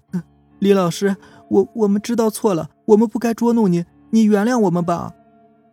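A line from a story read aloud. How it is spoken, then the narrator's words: Sobbing girl. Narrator (Chinese): 一个女同学抽泣着说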